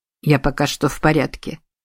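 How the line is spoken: Muttered. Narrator (Russian): пробормотал Сусаноо

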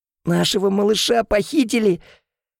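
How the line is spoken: Strained, forced out. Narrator (Russian): смогла выдавить из себя

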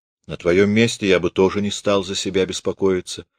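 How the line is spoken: Plain. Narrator (Russian): сказал Морозов

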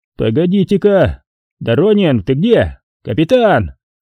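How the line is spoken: Shouted into boat. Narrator (Russian): крикнул в нутро катера прапорщик

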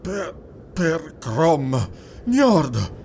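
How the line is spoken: Panting Cimmerian. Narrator (Italian): ansimò il cimmero

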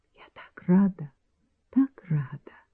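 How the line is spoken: Whisper. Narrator (Russian): прошептала Вара

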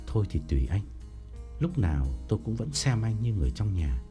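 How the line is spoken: Trembling old man. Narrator (Vietnamese): Ông run run bảo

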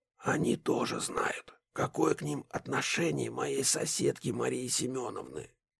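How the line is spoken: Whisper. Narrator (Russian): прошептал Бруно Васильевич

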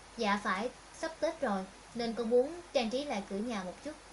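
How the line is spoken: Smiling, agreeable. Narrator (Vietnamese): Diệp Hạ Lam gật đầu mỉm cười

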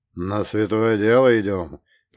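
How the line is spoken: Muffled but forceful. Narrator (Russian): произнес глухо, но с такой силой

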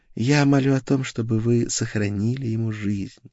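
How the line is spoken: Quiet. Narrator (Russian): тихо произнесла Гертруда

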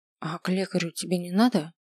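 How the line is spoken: Quiet question. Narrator (Russian): спросил я тихо

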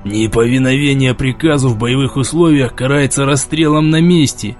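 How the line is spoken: Menacing hiss. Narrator (Russian): угрожающе прошипел Москвин

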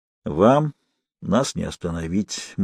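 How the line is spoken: Grim. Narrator (Russian): мрачно сказал Сэмпсон блондину

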